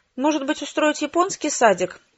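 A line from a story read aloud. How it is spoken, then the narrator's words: Sighing. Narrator (Russian): вздохнула мама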